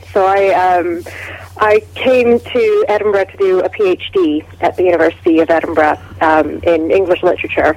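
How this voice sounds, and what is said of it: Canadian accent. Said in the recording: “you haven't got a Scottish accent ... I don't, no. I'm Canadian.”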